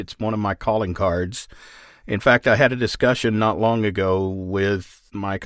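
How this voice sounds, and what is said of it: Texas accent. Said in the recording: “I've always found your Texas accent super like interesting and charming”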